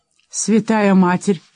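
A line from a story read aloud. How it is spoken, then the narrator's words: Exclaiming. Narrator (Russian): воскликнул Кейта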